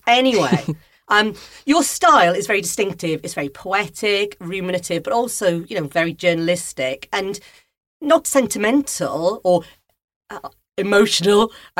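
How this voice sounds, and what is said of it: Welsh accent. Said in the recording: “My accent always wanders around as well. ... I think I sound more Welsh when I'm speaking to you.”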